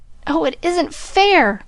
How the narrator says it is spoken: cried Joe passionately

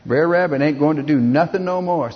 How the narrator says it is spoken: said Br'er Fox

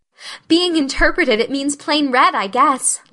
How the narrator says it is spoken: laughed Anne

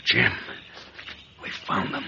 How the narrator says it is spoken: McCann whispered

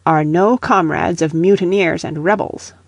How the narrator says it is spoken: replied Laudonniere sharply

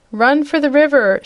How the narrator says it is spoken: shouted the Wizard

